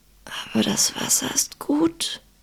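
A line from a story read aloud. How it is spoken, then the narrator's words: Hoarse whisper. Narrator (German): sagte er leise, wobei seine Stimme nicht mehr als ein heiseres Flüstern war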